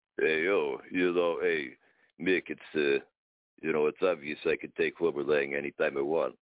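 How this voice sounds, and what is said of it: Rocky Balboa impression. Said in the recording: “you will never beat Rocky ... that was a bad impression. ... No, that was pretty good. ... Have another friend who does Rocky also”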